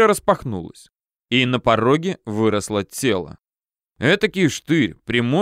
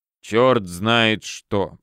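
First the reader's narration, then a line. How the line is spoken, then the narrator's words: Grumbled. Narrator (Russian): проворчал голос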